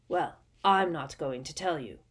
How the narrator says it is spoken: said Moody gruffly

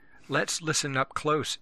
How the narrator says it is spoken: Benny whispered

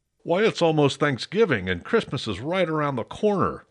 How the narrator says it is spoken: grumbled

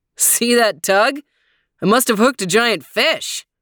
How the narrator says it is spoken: He called out

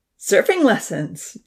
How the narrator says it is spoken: Damien laughed

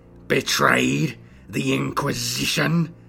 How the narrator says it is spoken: snarled

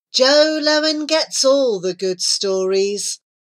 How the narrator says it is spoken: she sighed

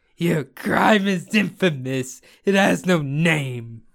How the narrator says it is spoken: The judge, burst into tears and cried

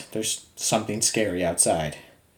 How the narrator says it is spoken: I immediately began in a shaken voice

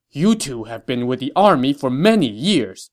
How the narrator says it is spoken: Cao Cao said angrily

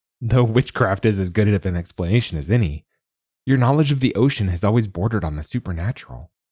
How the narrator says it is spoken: Thalia laughed

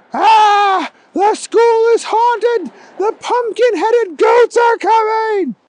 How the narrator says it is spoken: Stephen screamed

